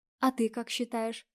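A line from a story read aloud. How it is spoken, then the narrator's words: Quiet question. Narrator (Russian): тихонько спрашивает жена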